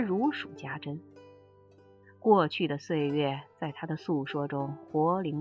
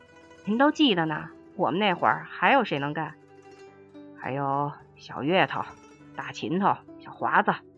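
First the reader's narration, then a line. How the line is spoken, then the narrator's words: Happy laughing, older speaker. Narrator (Chinese): 已过知天命年龄的我竟开心的笑着说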